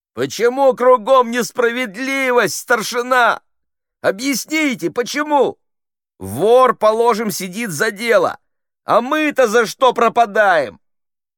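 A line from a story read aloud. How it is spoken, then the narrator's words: Sudden shout. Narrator (Russian): Фидель как закричит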